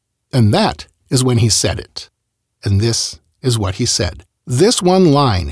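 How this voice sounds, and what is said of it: Usual voice. Nothing is said of it.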